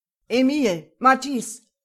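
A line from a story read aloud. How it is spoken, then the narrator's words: Bellowed. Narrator (German): brüllte Morel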